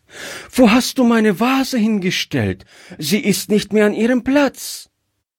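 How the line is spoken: Frightened child's cry. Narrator (German): rief das Kind erschrocken

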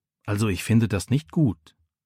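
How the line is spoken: Quiet. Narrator (German): sagt Micha leise

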